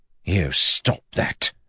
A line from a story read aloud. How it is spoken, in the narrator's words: he hissed at them